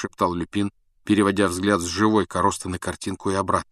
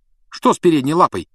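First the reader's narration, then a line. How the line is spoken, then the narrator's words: Sharp question. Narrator (Russian): резко спросил Рон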